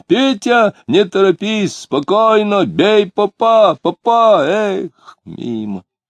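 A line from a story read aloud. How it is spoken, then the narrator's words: Excited pleading shout. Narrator (Russian): Он кричит умоляющим тоном, возбужденно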